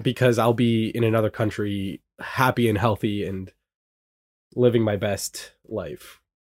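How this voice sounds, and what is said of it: Congested, sick-sounding voice. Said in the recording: “I don't know if you can hear it in my voice... Under the weather?... I'm a little under the weather... Congested.”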